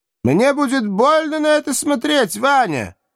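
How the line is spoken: Loud, steeling herself. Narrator (Russian): также громко ответила собравшаяся с духом израильтянка

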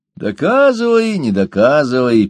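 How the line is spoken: Grumbled. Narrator (Russian): проворчал Ложкин

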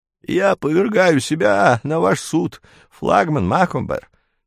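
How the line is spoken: Humble creaky voice. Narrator (Russian): смиренно проскрипел маэс

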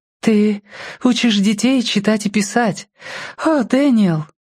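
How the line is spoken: Exclamation. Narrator (Russian): воскликнула она

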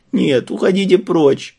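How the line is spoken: Whimpering. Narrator (Russian): хныкала она

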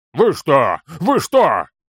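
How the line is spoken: Roared. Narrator (Russian): Взревел Торин

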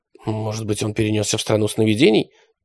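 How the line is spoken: Muttered. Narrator (Russian): пробормотала Алиса

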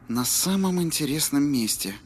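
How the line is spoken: Sigh. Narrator (Russian): вздохнул Джейк

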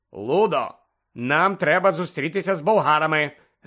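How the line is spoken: Sharp interruption. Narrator (Ukrainian): різко урвав Бегмена містер Кравч

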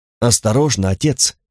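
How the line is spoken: Thin feminine warning voice. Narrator (Russian): предостерег Карл тонким женским голосом

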